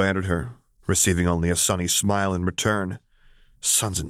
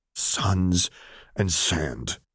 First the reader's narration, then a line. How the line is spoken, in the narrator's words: he groaned as he buried his head in his hands